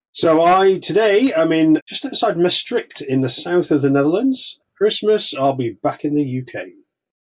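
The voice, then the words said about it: British accent, likely Welsh. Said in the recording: “because we hear that accent. We know you're not originally from the Netherlands.”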